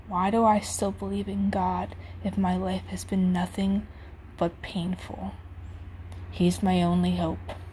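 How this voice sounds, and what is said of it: Emotional, choked-up reading voice. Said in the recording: “I truly end up getting a little emotional there.”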